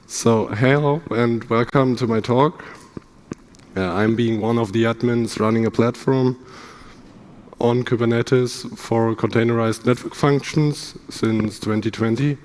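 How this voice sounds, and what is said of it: Hoarse, strained voice. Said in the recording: “My voice is a little bit broken.”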